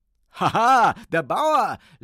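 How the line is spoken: Rooster laughing. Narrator (German): lachte der Hahn

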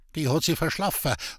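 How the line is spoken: Sullen grumble. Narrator (German): brummte sie verdrießlich

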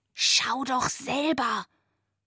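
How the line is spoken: Whispered reply. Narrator (German): flüsterte zurück

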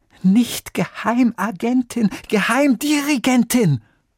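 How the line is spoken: Lady calling out. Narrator (German): rief die Dame

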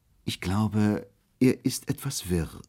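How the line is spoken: Sad. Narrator (German): sagte ich traurig

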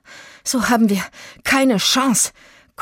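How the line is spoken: Gasping. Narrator (German): keuchte Itzig

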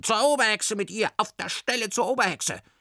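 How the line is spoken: Witches shrieking. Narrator (German): Die Berghexen kreischten

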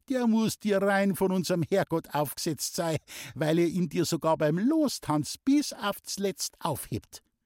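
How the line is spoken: Giggling. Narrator (German): kicherte Muckel

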